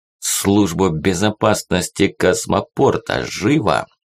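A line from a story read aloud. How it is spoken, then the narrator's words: Said through gritted teeth. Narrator (Russian): Процедил Азам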